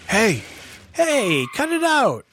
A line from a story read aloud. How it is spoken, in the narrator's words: yelled Bebop